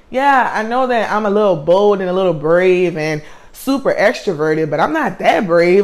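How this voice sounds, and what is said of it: Strong country accent. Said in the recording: “I have a really country accent”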